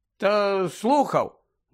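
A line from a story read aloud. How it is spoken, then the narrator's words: Grumbling. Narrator (Ukrainian): буркнув Гаррі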